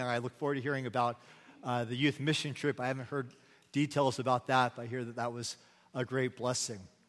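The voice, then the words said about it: Hoarse, nearly gone voice. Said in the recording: “My voice is now shot. It's officially gone for the morning ... I had surgery in my throat”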